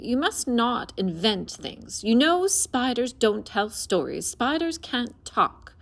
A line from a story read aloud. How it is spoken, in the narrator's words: said her mother sternly